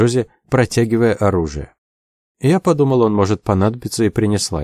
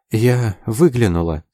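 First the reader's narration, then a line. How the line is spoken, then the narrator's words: Quiet. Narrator (Russian): сказала она тихо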